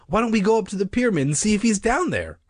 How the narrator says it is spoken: I asked impatiently

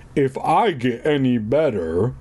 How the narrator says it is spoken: I moaned

